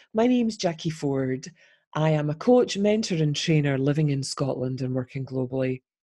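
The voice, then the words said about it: Warm Scottish accent, slightly altered voice. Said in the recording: “warm Scottish tones ... My voice may sound slightly different today. I am recovering from flu.”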